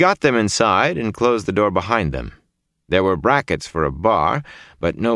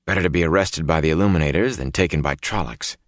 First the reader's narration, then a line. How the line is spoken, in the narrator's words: murmured